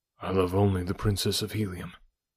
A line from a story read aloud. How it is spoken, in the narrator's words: I replied quietly